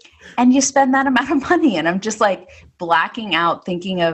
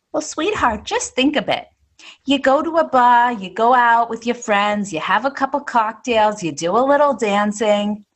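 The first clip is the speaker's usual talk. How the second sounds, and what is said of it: Put-on accent while quoting someone. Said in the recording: “She didn't sound with that accent, but sure. I just threw it in there.”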